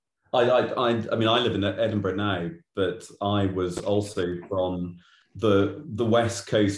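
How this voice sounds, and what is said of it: Strong Glaswegian accent. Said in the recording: “my strong Glaswegian accent”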